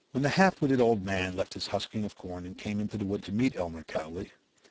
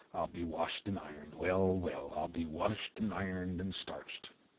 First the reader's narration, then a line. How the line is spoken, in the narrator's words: When excited or surprised by anything, he smiled vaguely and muttered